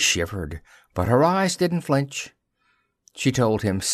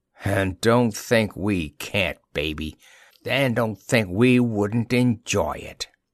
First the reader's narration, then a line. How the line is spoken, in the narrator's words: He said huskily